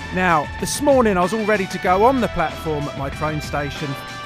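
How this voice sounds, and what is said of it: Usual voice. Nothing is said of it.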